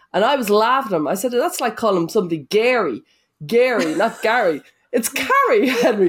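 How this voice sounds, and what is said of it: Strong accent. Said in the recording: “your beautiful accent ... I'm a stronger accent than I certainly thought”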